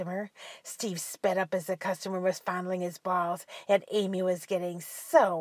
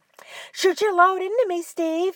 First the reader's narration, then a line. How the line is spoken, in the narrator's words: Amy screamed